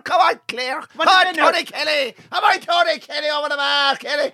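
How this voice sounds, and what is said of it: Put-on Clare Irish accent. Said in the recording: “the Clare accent”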